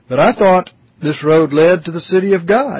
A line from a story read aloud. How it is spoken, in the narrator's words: exclaims with great disappointment